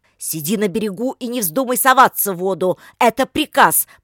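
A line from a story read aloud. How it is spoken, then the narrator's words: Shouted. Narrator (Russian): прокричал он девушке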